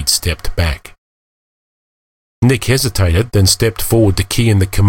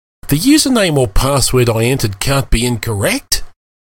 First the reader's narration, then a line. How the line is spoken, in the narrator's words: He swore and exclaiming